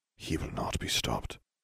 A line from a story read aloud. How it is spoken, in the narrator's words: Dumbledore whispered